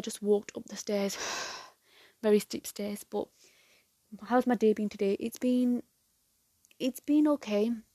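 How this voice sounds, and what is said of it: Out of breath, panting speech. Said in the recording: “I'm out of breath.”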